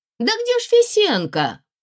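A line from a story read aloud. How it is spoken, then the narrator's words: Ringing tenor, full-volume shout. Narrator (Russian): Звонкий тенор закричал изо всей силы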